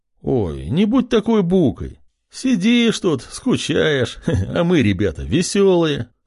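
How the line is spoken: Chuckling. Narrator (Russian): Хохотнул шатен

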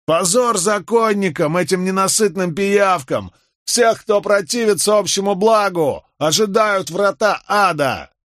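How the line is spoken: Shouting. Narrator (Russian): кто-то крикнул

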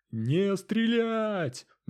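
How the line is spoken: Bear-like roar. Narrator (Russian): медведем взревел лидер

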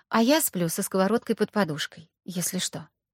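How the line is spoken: Calm reply. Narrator (Russian): спокойно ответила Аня

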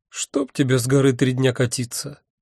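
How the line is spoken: Unhappy voice. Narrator (Russian): Несчастным голосом сказала Альвианта

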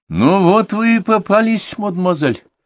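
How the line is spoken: Exclaimed. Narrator (Russian): воскликнул

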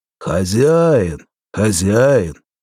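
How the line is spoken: Deep bass voice, behind gate. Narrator (Russian): Снова пробасили за калиткой

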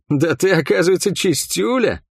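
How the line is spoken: Healer laughing. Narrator (Russian): рассмеялся лекарь

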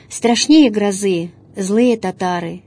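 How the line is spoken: Heavy sigh. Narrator (Russian): Тяжко вздохнул он

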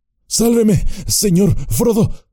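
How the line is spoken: Panting. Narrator (Spanish): jadeó Sam

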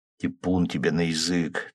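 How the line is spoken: Quiet reply. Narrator (Russian): также негромко ответил я

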